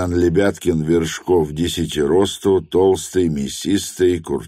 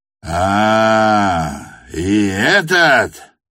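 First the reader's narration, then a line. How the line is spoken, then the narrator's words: Roaring again. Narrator (Russian): взревел он опять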